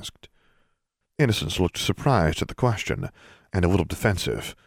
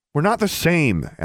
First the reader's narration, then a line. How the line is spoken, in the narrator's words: Alexandra snapped